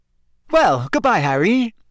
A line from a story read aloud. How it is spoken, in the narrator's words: Rita Skeeter called merrily